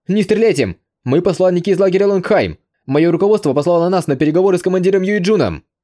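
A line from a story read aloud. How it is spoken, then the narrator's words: Loud shout. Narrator (Russian): посол Канг Тао, громко крикнувший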